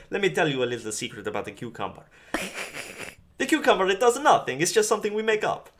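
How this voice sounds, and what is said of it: Super Mario-style voice. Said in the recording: “You sound like Super Mario.”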